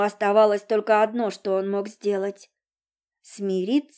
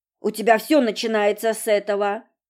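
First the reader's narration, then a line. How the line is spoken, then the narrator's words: Grumbled. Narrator (Russian): проворчал Володька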